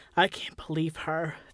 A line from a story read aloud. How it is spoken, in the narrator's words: Thad hissed